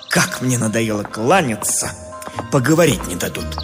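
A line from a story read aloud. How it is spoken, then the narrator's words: Irritated grumble. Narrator (Russian): Вынужденный беспрестанно отвечать на приветствие, поэт раздраженно буркнул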